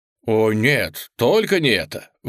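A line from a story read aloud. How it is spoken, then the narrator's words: Exclaimed. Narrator (Russian): воскликнул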